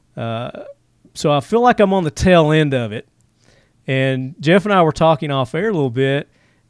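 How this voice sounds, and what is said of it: Congested, sniffly voice. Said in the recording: “flu-like symptoms... you can hear it in my voice a little bit. Got the sniffles.”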